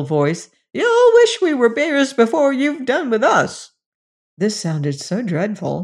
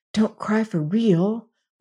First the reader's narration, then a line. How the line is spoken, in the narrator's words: whispered George